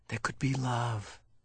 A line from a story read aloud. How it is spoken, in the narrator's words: Jonas whispered